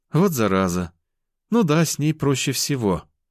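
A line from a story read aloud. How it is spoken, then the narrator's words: Sighing. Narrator (Russian): вздохнула она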